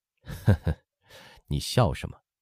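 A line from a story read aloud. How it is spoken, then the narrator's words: Laughing question. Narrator (Chinese): 乾隆笑问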